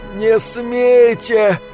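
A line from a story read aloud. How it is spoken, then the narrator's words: Strained breathless gasp. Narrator (Russian): с трудом выдохнул кондуктор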